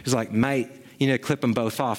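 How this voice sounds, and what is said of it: Poor attempt at Kiwi/Australian accent. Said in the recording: “I don't want to try the Kiwi accent ... And I think that was more Australian ... That was terrible.”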